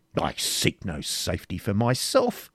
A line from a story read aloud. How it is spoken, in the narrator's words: said Prince John haughtily